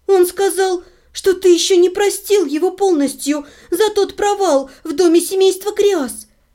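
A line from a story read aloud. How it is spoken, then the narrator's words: Timid babbling. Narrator (Russian): пролепетала я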